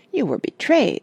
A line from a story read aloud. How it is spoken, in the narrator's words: said Douglas indignantly